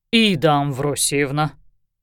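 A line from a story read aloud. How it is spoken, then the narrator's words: Reproachful booming from huge man. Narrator (Russian): укоризненно прогудел один из инквизиторов, мужчина горой возвышавшийся над соседями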